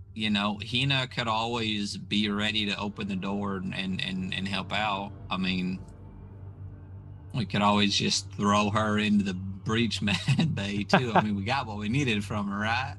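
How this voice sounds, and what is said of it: Put-on Southern US accent. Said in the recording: “He's saying it in a southern accent”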